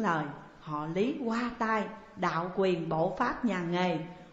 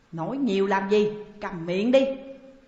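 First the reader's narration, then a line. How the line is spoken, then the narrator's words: Harsh shout. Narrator (Vietnamese): Thay vì từ tốn, Lý Bà Sơn quát mắt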